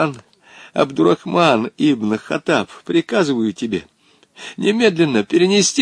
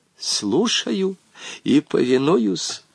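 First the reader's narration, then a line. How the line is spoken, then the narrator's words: Old man whispering reply. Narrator (Russian): также шепотом ответил старик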